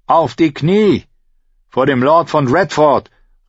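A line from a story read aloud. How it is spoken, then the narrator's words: Boy shouting. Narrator (German): rief sein Knappe, ein Junge in Arias Alter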